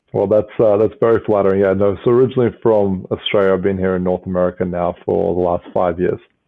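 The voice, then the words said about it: Australian accent. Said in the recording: “your accent is Australian”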